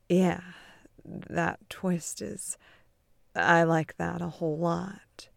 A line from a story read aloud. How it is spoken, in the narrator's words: Ted mutters